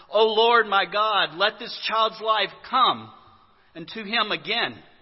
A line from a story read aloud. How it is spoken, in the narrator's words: cried out to the Lord